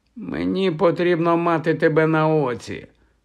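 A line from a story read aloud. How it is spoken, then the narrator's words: Hoarse rasp. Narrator (Ukrainian): прохрипів Хаул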